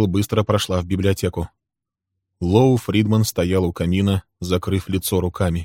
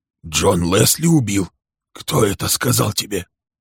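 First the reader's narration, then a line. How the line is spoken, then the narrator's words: Hoarse question. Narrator (Russian): спросил он хрипло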